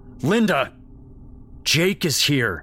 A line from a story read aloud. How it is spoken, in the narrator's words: his dad bellowed